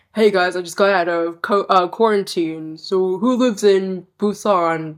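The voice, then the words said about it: Imitates another person's voice. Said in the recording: “Yeah, because that's exactly how I sound. ... I think that was a very good impression.”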